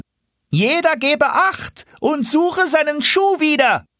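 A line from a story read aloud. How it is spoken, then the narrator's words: Sudden call out. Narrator (German): rief er auf einmal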